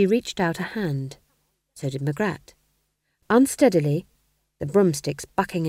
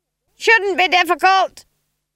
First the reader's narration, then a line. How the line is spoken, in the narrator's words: screamed Granny above the noise of the wind